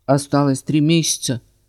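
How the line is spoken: Conciliatory mutter. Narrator (Russian): буркнул директор примирительно

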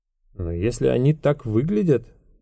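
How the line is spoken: Mumbling. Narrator (Russian): пробормотал Рода

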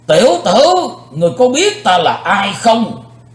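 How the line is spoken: Angry thunderous shout. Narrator (Vietnamese): Vị tà thần như nổi giận, quát chấn động bốn bề vách đá

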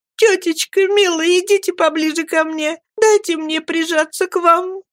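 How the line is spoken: Sobbing. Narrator (Russian): рыдая промолвила Эмилия

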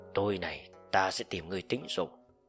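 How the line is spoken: Low voice. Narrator (Vietnamese): Ô Tàng nhỏ giọng nói

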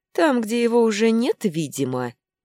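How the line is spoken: Mocking remark. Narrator (Russian): насмешливо обронил Вайнер

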